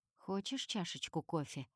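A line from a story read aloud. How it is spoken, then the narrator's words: Soft seductive question. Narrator (Russian): спрашивает он таким мягким голосом, словно собирается меня соблазнить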